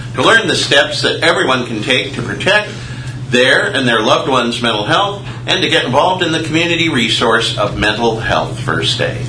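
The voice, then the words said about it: Polished radio announcer voice. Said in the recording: “love that radio voice for reading these proclamations”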